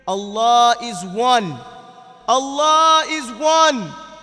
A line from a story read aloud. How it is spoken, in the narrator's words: with every blow, he said loudly and clearly